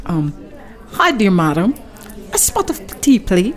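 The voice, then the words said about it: Put-on English accent. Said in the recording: “I always wanted to visit England. I gotta start practicing my accent.”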